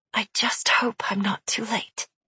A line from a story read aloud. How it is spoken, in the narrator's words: he whispered